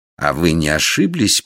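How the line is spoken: Menacing question. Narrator (Russian): побледнев, грозно спросил Дикон

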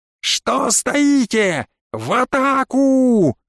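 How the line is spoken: Yelling. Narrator (Russian): заорал я

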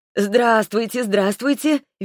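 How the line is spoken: Cheerful woman. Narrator (Russian): весело отозвалась женщина

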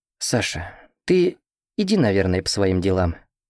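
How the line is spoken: Soft young man's voice. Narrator (Russian): мягко говорит парень

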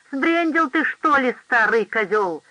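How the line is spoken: Yelled. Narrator (Russian): заорал Джордж

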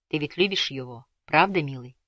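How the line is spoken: Whisper. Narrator (Russian): прошептала она

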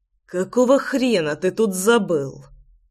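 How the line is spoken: Hissed reply. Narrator (Russian): прошипел я в ответ

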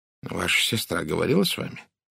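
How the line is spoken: Gentle question. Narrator (Russian): мягко спросил Пуаро

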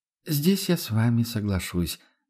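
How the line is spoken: Exaggerated heavy sigh. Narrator (Russian): нарочито тяжело вздохнула Адельхайда

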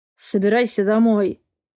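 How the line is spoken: Through gritted teeth. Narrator (Russian): Сквозь зубы

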